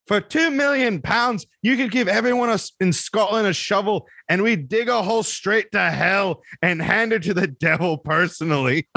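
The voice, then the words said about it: Weak put-on Scottish accent. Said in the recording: “I'm going to do a piss poor Scottish accent”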